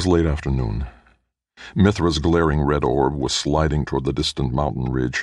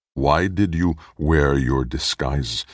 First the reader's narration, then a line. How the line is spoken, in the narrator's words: Minx asked